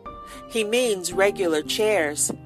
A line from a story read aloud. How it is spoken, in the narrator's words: said Paul